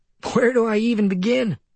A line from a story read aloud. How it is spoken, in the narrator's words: the buyer from Kmart replied, forcing a chuckle